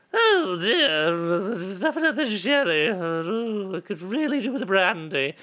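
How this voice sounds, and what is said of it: Drunk old lady voice. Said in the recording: “doing a voice that I'm a little bit addicted to doing, where I pretend to be an old lady drunk on sherry”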